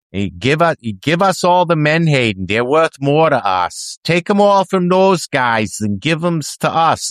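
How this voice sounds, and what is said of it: Imitated Maine accent. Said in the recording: “I don't know if I necessarily agree that that's what a Maine axe head sounds like ... I do my best”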